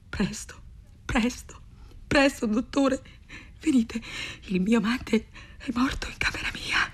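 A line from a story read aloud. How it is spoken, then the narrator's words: Stammered. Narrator (Italian): balbettò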